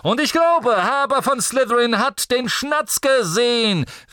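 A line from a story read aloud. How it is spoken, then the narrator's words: Calling through a megaphone. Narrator (German): rief Zacharias Smith durch sein Megafon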